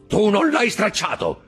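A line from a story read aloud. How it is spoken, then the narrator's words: Shouting. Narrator (Italian): gridò Caderousse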